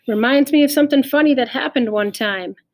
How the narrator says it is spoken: Pete went on, raising his voice over the sound of the wind

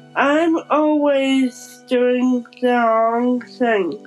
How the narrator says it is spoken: moaned the young bride

